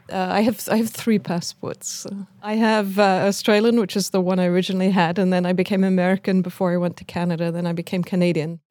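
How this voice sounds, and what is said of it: Speaks with a foreign accent. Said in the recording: “she, too, has an accent”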